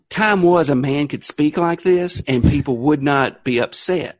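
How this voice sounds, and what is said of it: Televangelist voice like Tammy Faye Baker. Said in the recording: “You sound like – you honestly sound like Jimmy Swaggart's wife or something ... that voice was so perfect ... Tammy Faye Baker”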